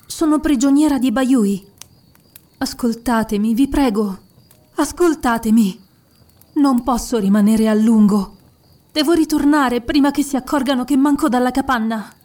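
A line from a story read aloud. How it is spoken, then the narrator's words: Breaking off with a sob. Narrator (Italian): Si interruppe con un singhiozzo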